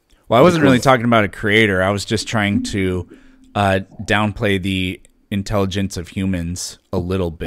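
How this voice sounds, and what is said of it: American accent. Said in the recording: “I'm guessing by your accent you live in ... America.”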